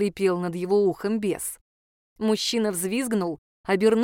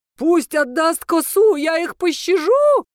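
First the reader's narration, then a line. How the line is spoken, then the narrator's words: Shrieking. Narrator (Russian): завизжал он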